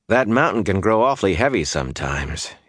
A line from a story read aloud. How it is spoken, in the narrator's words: he sighed